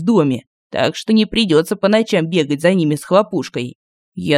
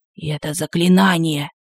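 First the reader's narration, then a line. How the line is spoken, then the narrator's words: Whispered explanation. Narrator (Russian): шепотом объяснил он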